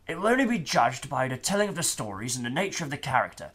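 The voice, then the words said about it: Imitates another person's voice. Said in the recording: “I'm going to try and do my best Colin Baker impersonation.”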